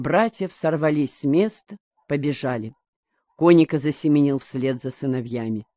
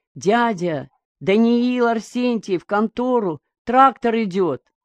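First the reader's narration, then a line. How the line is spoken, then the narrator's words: Boy shouting, breathless. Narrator (Russian): прибежал мальчишка, закричал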